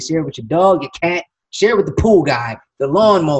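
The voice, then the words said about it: Announcer voice. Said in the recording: “that announcer voice, man. You had that. You got that down.”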